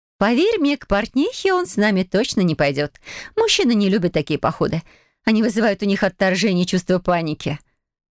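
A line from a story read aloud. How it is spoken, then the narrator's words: Laughing. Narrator (Russian): рассмеялась леди Конте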